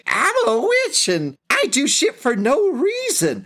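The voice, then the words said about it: Put-on witch character voice. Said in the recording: “My witch voice is really bad, by the way.”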